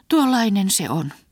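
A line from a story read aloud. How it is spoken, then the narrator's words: Sighed. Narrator (Finnish): huokasi Halise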